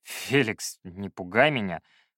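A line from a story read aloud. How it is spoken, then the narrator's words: Drawled. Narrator (Russian): протянул я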